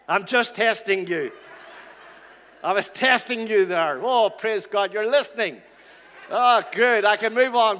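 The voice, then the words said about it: Irish accent. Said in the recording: “the Irish accent is probably topped up”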